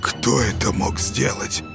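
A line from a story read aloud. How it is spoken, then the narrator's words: Muffled terrified whisper. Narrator (Russian): Глухо прошептал Юрка в ужасе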